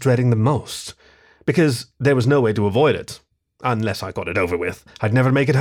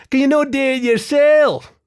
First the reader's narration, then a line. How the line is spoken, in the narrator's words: It whined